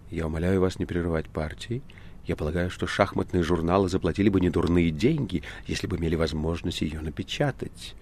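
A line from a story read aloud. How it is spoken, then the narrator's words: Composed, quiet but clear. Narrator (Russian): справившись с собой тихо, но ясно ответила Маргарита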